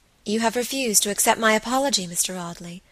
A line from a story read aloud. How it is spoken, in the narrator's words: she said